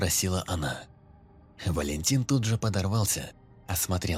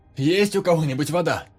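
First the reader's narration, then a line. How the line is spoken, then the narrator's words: Loud question to crowd. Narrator (Russian): Громко вопросил он у толпы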